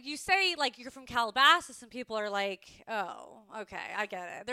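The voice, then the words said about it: Calabasas Kardashian-style accent. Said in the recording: “I'm from Calabasas ... you're like a Kardashian. And I'm like, I have the accent”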